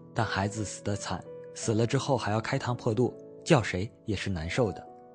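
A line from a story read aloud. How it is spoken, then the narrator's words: Quiet, after a pause. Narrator (Chinese): 沉默了一阵，又低声说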